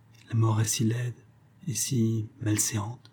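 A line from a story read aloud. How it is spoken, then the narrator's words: Murmured. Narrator (French): murmura-t-elle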